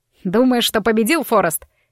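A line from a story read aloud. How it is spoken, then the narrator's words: Bark. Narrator (Russian): рявкнул он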